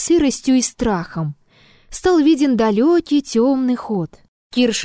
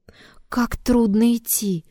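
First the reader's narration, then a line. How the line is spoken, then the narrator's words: Whisper. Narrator (Russian): шептала Елисавета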